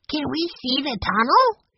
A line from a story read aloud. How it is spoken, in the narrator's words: he asked eagerly